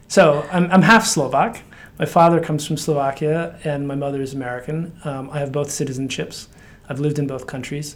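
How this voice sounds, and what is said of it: American accent. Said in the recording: “you can sense from my accent, it's an American accent.”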